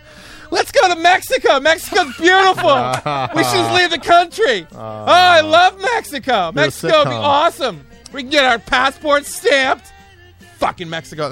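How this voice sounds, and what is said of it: Yelling, imitating his wife. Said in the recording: “I'm yelling and I'm impersonating my wife. I sound like a crazy person ... That's what I'm yelling ... like a little child, like imitating my wife”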